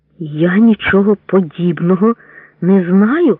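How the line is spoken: Hoarse rasping. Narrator (Ukrainian): хрипів голос Ковальчука

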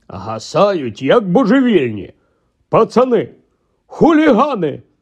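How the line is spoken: Grumbling. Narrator (Ukrainian): буркнув він

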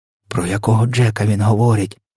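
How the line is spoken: Whispered question. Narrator (Ukrainian): пошепки спитала Софія

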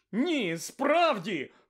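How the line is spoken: Desperate exclamation. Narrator (Ukrainian): вигукнув у відчаї містер Уізлі

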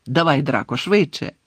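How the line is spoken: Angry man's shout. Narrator (Ukrainian): сердито крикнув чоловік

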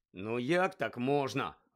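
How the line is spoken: Irritated grumble. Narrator (Ukrainian): роздратовано буркнув Рон

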